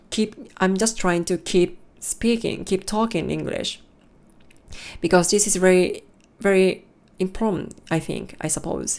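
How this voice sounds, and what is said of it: Japanese-accented English. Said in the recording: “My pronunciation is much more Japanese accent”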